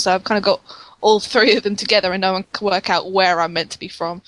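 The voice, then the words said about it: Mixed regional British accent. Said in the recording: “people can't place my accent, and sometimes people think I'm Australian. It's because my accent is a mixture of three different dialects in the UK”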